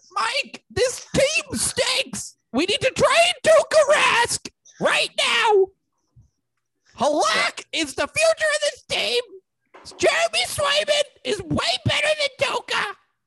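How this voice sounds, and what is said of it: Impression of sports radio host Zolak. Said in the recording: “that's like close to a Zolak impersonation.”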